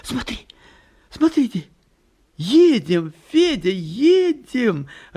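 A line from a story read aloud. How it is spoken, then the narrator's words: Joyful cry. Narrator (Russian): радостно вскрикивает Нина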